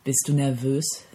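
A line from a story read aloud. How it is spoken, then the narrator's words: Gentle question. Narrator (German): fragte sanft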